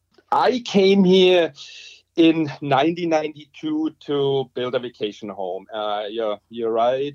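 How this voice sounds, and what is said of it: Strong German Bavarian accent. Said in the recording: “your accent gives away the fact that you're not originally from the Cariboo... I still have a strong accent... due to coming from Germany, from the Bavarian Alps”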